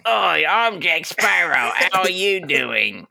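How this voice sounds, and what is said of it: Jack Sparrow impression. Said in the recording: “Pretty good impression.”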